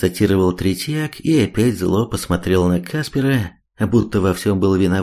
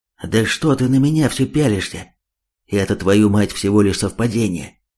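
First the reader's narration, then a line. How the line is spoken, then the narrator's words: Angry, confused whisper. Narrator (Russian): Зло отчего-то шепотом ответил тот, хотя в глазах виднелась растерянность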